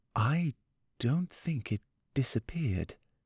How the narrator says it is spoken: he said softly

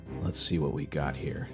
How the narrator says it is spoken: Hicks muttered to himself

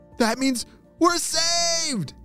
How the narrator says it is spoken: shouted Neil

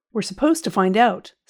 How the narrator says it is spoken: snapped Anglesey

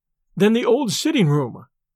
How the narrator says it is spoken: exclaimed David

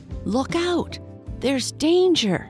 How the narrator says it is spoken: cried

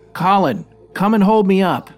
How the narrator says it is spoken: I could see fear in his eyes, and he started shouting to me

